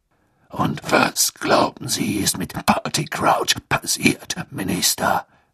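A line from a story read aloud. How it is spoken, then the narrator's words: Growling voice. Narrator (German): ertönte Moodys knurrende Stimme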